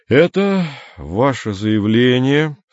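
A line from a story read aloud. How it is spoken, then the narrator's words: Indifferent voice. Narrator (Russian): сказал Андрей равнодушным голосом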